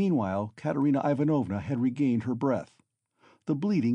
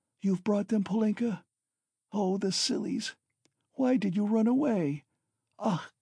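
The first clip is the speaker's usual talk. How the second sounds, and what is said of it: Faint, weak voice. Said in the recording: “she said in a faint voice”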